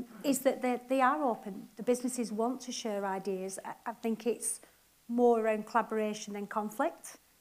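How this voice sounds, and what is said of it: Non-Manchester regional accent. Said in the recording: “I'm not from Manchester, in case you can't tell with my accent”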